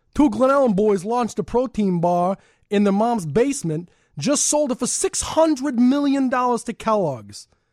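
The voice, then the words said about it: Attempted Chicago accent, somewhat New York. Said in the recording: “we're going to go ahead here and do a Southside voice as best as I'm capable of doing it ... All right, Chicago accent. ... It was like a New York. You had like a little New York thing.”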